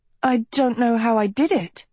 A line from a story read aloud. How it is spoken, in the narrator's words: she stuttered